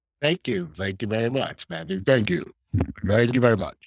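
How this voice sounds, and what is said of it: Radio announcer voice. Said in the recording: “Radio announcer voice”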